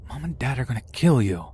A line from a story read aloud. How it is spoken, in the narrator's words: My brother whisper yelling said